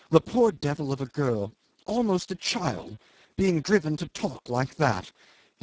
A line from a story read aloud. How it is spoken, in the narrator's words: he exclaimed in horror